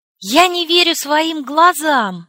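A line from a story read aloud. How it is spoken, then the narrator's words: Shouting. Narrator (Russian): закричала я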